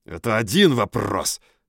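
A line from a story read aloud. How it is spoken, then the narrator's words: Growled. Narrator (Russian): прорычал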